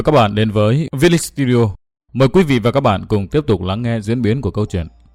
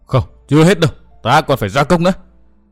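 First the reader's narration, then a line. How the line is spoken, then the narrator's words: Frenzied roaring. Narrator (Vietnamese): Văn Thiên Hào buột miệng gầm hét như điên như khủng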